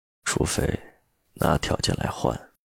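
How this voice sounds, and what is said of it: Lowered, slightly husky voice. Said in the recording (Chinese): “压低声音，嗓音有些沙哑”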